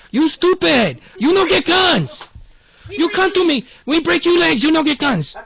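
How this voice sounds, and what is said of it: Shouted put-on Mexican-sounding accent. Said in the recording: “Instead of doing a Chinese accent... It's Mexican. Everything I do sounds Mexican today.”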